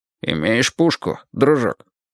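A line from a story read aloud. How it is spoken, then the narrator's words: Nurse's low muffled cursing. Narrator (Russian): Сиделка глухим низким голосом обложила его в несколько этажей на чистейшем английском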